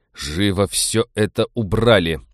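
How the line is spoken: Growled. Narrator (Russian): прорычал Станислав

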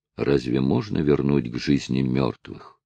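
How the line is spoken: Sad. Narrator (Russian): печально проговорил Нать

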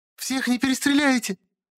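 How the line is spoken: Hysterical female shriek. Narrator (Russian): Истерично взвизгнула женщина

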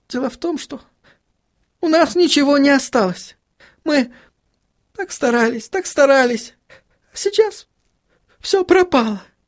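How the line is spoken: Burst into sobs. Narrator (Russian): Она разрыдалась

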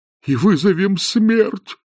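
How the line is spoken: Moaned. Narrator (Russian): простонал декан

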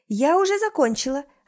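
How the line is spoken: Cheerful report. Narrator (Russian): отчитывается бодрым голосом

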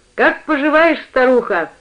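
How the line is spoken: Cheerful shout. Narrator (Russian): весело крикнул

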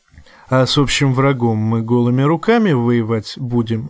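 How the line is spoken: Laughing. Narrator (Russian): засмеялся Кожаный

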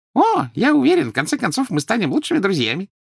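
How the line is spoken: Cheerful promise. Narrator (Russian): весело пообещал Дингл

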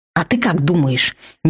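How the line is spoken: Sudden ferocious growl. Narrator (Russian): неожиданно свирепо рыкнула вампирка

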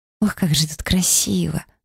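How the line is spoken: Delighted whisper. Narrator (Russian): восторженно шептала Эмили

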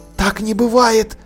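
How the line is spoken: Whispering. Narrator (Russian): продолжала она шепотом

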